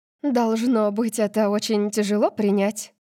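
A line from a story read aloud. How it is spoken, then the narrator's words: Gentle admission. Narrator (Russian): мягко признала она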